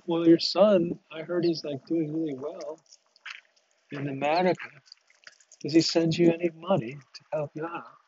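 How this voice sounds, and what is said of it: Attempted Scottish accent, sounds English. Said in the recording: “that's probably more of an English accent than Scottish. I can't do it.”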